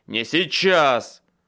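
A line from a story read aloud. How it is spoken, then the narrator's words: Barked. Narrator (Russian): рявкнул я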